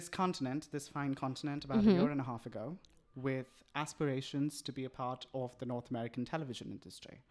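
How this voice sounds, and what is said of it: Slight British accent. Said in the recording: “you have a bit of a British accent.”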